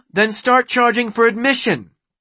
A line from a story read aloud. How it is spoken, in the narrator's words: Beely snapped